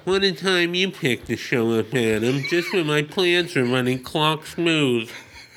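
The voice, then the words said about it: Stiff upper-lip character voice. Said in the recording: “the Chronos voice ... you just hold your upper lip. And you get, none of your P's can sound like P's. They're also like F's.”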